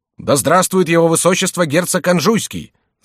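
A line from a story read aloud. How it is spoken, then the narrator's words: Crowd shouting together. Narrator (Russian): закричали все присутствующие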